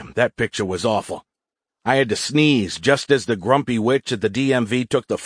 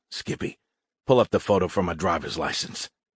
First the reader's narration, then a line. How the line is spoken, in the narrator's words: Into my Z-phone, I whispered